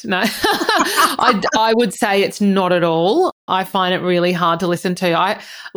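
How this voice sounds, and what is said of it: Australian accent. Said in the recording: “coming all the way from Australia... Australian accents are just so hot... my sexy accent”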